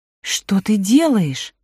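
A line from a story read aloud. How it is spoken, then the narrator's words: Exclaiming. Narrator (Russian): воскликнула Элина Веленовна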